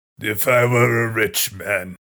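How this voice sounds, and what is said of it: Gravelly sung Tevye character impression. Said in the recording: “you're doing a great Tevye impression ... from Fiddler on the Roof ... Is that the Louis Armstrong version of Tevye? ... Louis Armstrong mixed with Tom Waits.”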